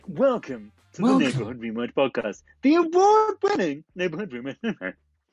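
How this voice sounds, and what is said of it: Exaggerated announcer-style podcast voice. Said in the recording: “Do you think you'll ever start a podcast with a normal voice? ... This is my podcast voice.”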